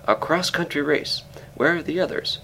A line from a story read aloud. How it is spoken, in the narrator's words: Here was true energy, and I exclaimed